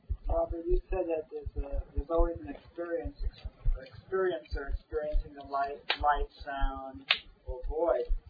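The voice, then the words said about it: New York accent. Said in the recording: “New York accent.”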